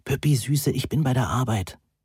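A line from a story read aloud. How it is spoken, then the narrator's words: Whispered. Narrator (German): flüsterte Moni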